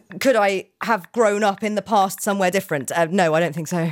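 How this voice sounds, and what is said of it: Birmingham accent. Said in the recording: “you're from Birmingham. ... That's not even one of the good accents.”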